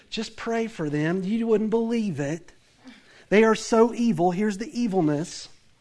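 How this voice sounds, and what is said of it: Southern US accent. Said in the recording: “I have that southern accent.”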